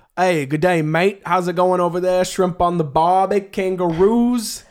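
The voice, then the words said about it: Poor put-on Australian accent. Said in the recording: “He's so bad at imitating accents. ... Do an Australian one.”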